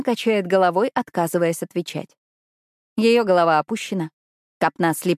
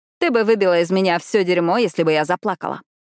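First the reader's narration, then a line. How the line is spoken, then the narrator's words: Loud. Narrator (Russian): громко говорю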